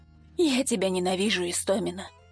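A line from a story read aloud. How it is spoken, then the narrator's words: Whisper. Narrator (Russian): прошептал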